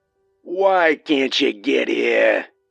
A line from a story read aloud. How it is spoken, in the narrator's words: He growled